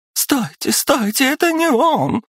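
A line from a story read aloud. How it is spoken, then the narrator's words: Girl's shriek. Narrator (Russian): завизжала девушка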